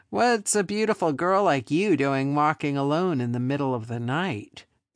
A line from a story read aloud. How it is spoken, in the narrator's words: the second man sneered at her